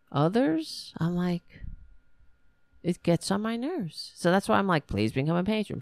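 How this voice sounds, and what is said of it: Strong New York accent. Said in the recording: “why am I talking like this? I don't know. I talk like a New Yorker. The more I get frustrated. I am a New Yorker.”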